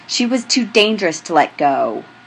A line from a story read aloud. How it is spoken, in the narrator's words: he snaps